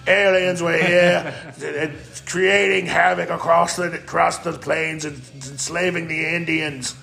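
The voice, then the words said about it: Rough British-Australian put-on accent. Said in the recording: “There's my gutter British Australian accent.”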